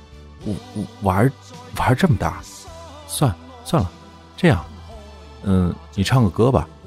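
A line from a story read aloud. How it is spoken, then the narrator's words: Choked, stammering. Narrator (Chinese): 噎了下，结结巴巴地说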